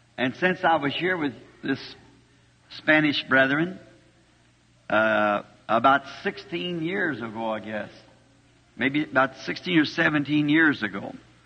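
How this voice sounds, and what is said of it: Slightly hoarse voice. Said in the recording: “I'm just a teeny bit hoarse, of course that's from speaking much”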